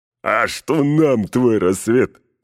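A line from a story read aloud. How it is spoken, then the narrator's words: Laughing voices from below. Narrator (Russian): захохотали снизу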